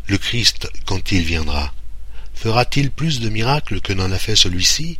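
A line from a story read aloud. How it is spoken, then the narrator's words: Crowd murmuring. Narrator (French): la foule murmurant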